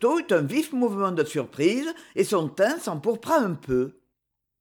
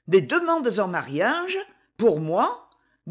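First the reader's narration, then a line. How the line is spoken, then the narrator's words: Incredulous tone. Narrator (French): dit-elle d'un ton incrédule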